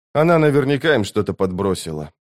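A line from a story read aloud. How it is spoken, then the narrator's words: Tired repetition. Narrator (Russian): устало повторил он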